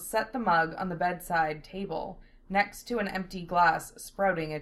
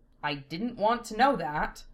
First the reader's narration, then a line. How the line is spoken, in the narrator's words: Lena grumbling